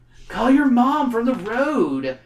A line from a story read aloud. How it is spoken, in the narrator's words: the stranger yells